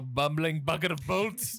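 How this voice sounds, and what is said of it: Fake British accent, Lost in Space doctor. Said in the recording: “That's a fucking fake accent too. Apparently, he's like from Brooklyn or something ... you're old, you can be British”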